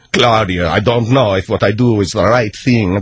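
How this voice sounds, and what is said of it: Put-on Italian accent. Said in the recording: “freaking Italian accent of yours”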